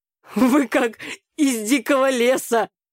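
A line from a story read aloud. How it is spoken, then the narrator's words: Laughing. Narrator (Russian): рассмеялся папа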